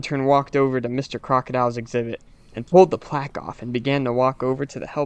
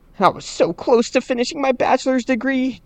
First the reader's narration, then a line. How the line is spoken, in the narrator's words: Jenny cried out